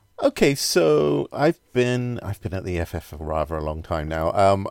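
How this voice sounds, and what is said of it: British accent. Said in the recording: “as you can probably tell from the accent, based in the UK”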